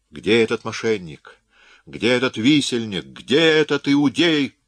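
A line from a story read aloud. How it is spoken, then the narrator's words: Thundering shout. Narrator (Russian): прогремел кто-то, и Гуччо узнал голос Пьера де Крессе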